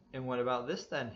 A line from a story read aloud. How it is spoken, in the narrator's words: exclaimed